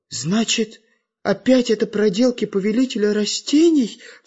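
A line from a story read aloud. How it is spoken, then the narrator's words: Frightened question. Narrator (Russian): испуганно спросила Настенька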